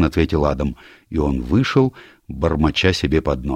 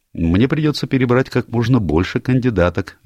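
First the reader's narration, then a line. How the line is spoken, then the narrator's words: Cheerful. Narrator (Russian): весело ответил Адам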